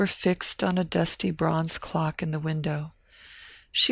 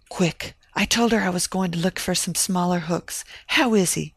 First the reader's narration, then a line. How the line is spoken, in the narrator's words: Evelina gasped